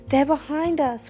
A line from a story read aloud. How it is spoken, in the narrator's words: cried Morrigan